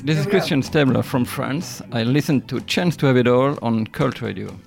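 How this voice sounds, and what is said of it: French-accented English. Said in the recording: “that beautiful, sexy, wonderful French accent of yours”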